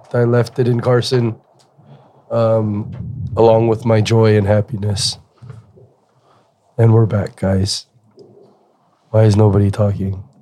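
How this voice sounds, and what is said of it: Hoarse, nearly lost voice. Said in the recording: “My voice is gone from fucking”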